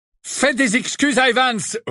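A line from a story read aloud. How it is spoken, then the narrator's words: Menacing roar. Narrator (French): rugit James d'une voix menaçante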